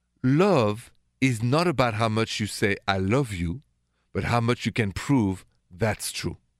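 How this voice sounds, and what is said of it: French accent. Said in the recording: “my accent is French, straight from Paris”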